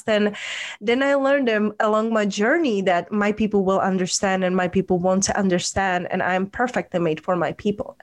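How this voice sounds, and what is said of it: Strong non-native English accent. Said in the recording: “because of my accent, because people couldn't understand me in a past”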